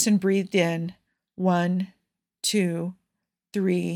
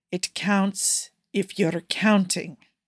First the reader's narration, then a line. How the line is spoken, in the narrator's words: Cougar said firmly